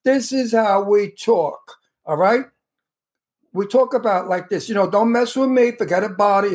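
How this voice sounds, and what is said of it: Exaggerated tough-guy Brooklyn accent. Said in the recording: “I always play a wise guy, a tough guy from Brooklyn, because it's very easy for me to have my Brooklyn accent whenever I want it. ... It sounds a little bit too much.”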